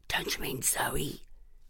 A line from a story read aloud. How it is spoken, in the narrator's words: She whispered back